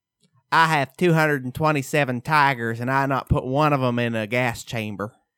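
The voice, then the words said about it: Imitates another person's voice. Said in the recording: “That's such a good impression. ... It's so good.”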